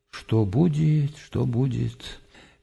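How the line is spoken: Anguished mutter. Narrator (Russian): с тоской пробормотал

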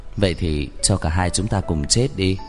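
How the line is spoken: Low voice. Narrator (Vietnamese): thấp giọng nói

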